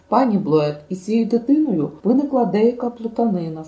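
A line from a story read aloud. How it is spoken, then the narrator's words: Plain. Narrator (Ukrainian): сказала вона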